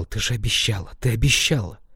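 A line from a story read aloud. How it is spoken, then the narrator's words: Whispering. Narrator (Russian): шептал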